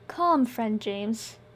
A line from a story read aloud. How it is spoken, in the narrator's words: Ely said soothingly